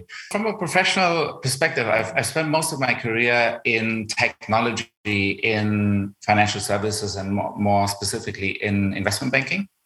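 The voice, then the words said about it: German accent in English. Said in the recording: “It's probably unavoidable that you spot my German accent.”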